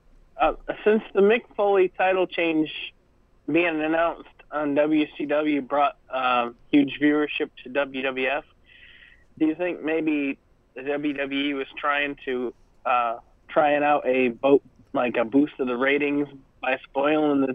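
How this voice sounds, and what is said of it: Congested voice with a cold. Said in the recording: “you all right, buddy? ... I have a cold.”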